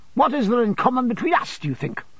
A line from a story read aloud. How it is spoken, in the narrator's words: returned the other fiercely